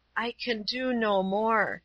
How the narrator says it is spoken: she murmured, as soon as she was able to speak

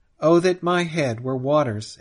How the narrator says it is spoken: exclaims Ledger

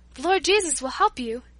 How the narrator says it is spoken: answered Paula

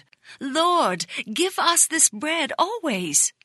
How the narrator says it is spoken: Still thinking it was physical food, some exclaimed

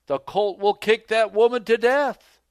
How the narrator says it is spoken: Elder Bates called out to Elder White

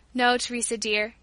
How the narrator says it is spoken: sighed

